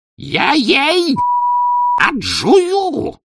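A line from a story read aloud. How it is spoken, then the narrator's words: Wild roar. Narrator (Russian): диким голосом взревел бесноватый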